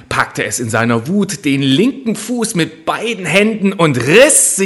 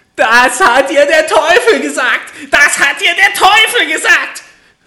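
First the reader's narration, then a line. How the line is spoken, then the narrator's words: Furious little man screaming. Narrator (German): schrie das Männlein und stieß mit dem rechten Fuß vor Zorn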